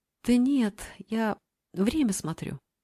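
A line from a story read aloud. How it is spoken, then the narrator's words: Uncertain. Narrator (Russian): ответила неуверенно Мила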